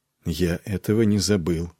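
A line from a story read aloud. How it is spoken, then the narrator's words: Quiet. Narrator (Russian): проговорил тихо Нед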